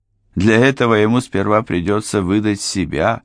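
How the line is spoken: Grim, smirking. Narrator (Russian): проговорил Форд, мрачно усмехнувшись

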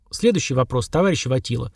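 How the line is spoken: Dry. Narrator (Russian): сухо произнес

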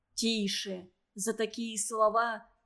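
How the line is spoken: Group whispering. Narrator (Russian): зашептали соседи

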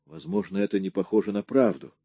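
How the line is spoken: Mumbling. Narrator (Russian): промямлил Рэнди

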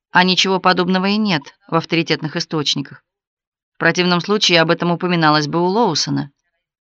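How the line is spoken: Calmly. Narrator (Russian): сказала спокойно

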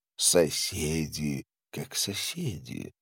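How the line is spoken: Calm. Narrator (Russian): спокойно произнес астролог

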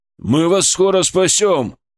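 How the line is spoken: Hopeful shout. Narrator (Russian): обнадеживающе крикнул Игорь

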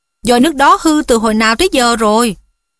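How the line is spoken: Cheerful ghost voice. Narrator (Vietnamese): con ma khóc nhẹ Mytho hớn hở nói

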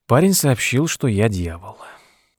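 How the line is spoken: Sighing. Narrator (Russian): вздохнул Тед

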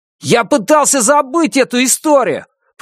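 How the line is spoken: Shouted. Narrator (Russian): прокричал Роберт, обращаясь к Джеку

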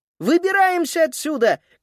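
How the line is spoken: Shouted. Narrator (Russian): крикнула Фрида

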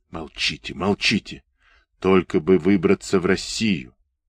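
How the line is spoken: Fervent whisper. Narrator (Russian): Кто-то горячо шептал ему в ухо

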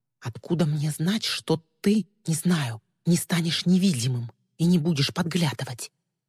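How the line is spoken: Hushed whisper. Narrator (Russian): Стараясь говорить так, чтобы Мира не услышала, Ли прошептала

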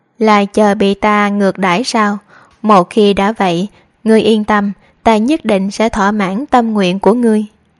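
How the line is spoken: Loud mocking laugh. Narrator (Vietnamese): Lương Văn ngửa đầu cười to

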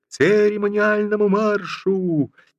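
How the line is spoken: Faltering, embarrassed, trailing off. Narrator (Russian): один стоявший ротный крикнул, но уже после других заплетающимся и стыдливым голосом, не договаривая команды

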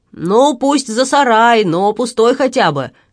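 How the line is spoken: Shouting after someone. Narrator (Russian): крикнул Рэтлиф ему вдогонку

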